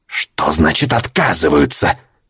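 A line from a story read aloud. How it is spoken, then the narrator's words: Biologist's hiss. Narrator (Russian): прошипел биолог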